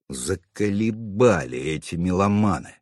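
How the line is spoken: Fierce grumble. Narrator (Russian): свирепо проворчал я

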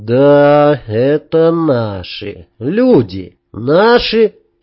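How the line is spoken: Through gritted teeth. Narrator (Russian): процедил Сергей

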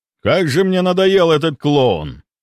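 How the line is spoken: Menacing roar. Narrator (Russian): Грозно взревел он

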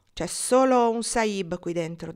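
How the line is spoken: Plain. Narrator (Italian): disse

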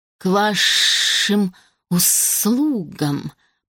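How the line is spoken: Creature's hiss through grate. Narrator (Russian): прошипело создание сквозь отверстие, забранное серебристой металлической решеткой

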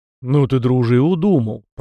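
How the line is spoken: Puzzled grumble. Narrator (Russian): проворчал кузнец в недоумении

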